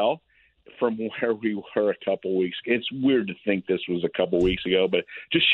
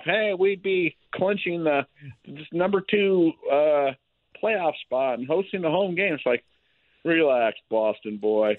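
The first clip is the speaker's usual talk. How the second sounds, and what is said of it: Whiny mock Boston accent. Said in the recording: “Is that your version of the Boston accent? ... It was very whiny and annoying. That's pretty good.”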